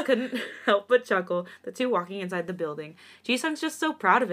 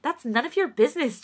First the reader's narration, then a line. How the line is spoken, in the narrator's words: Changbin exclaimed in a quiet voice, heat rising to his cheeks